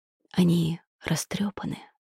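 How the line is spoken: Whisper. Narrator (Russian): шепнул

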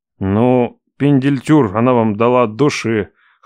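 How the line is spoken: Snorting chuckle. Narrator (Russian): хмыкнул

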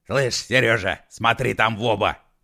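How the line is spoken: Shouted. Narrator (Russian): крикнул он

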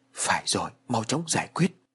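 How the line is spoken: Muttered. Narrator (Vietnamese): Bà lẩm bẩm

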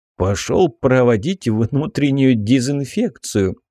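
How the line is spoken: Snort. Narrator (Russian): хмыкнул Вернон

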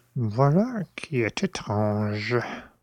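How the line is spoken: Murmuring. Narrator (French): murmura M

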